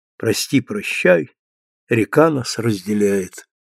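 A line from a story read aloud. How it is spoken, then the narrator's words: Quiet singing to himself. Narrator (Russian): Тихо он запел сам для себя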